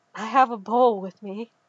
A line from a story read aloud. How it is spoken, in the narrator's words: Kitster said breathlessly